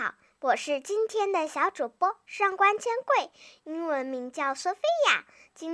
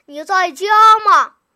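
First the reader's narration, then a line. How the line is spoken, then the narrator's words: Calling from outside. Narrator (Chinese): 有人在门外喊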